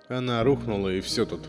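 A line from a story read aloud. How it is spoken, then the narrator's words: Gloomy. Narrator (Russian): мрачно сказал Магдан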